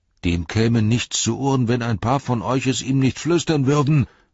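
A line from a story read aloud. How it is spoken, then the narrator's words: Angry reply. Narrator (German): erwiderte Hopp wütend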